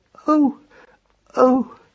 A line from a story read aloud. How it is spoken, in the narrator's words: cried Marcus Aurelius quietly